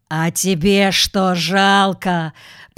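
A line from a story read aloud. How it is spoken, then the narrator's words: Hoarse growl. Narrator (Russian): прорычал хрипло якут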